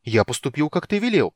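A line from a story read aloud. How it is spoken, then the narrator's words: Exclamation. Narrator (Russian): воскликнул Тас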